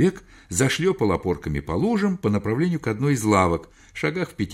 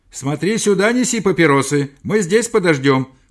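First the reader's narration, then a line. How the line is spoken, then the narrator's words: Shouting after someone. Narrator (Russian): крикнул я ему вслед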